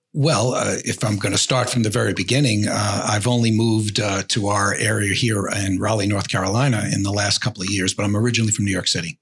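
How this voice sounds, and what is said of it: New York accent. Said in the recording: “You definitely got that great New York accent.”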